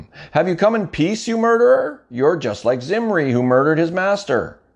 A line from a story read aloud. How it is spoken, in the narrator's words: she shouted at him